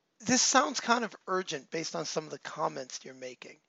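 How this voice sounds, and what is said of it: Strained, not-yet-recovered voice. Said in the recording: “hoping by then my voice is better”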